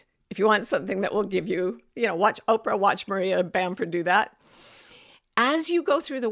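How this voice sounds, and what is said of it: Usual voice. Nothing is said of it.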